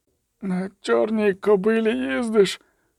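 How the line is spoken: Muttered. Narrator (Ukrainian): пробурмотів

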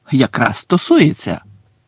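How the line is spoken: Passionate exclamation. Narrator (Ukrainian): палко вигукнув Гаррі

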